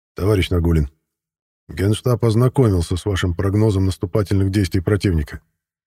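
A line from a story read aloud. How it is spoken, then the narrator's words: Even-voiced. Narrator (Russian): ровным голосом сообщил мне маршал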